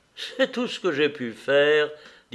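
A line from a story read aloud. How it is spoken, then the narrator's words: Laughing. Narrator (French): dit-elle en riant à Anna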